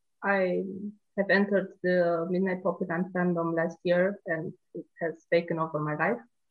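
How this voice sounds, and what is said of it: Romanian-accented English. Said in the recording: “I live in Romania. So if my accent is funny”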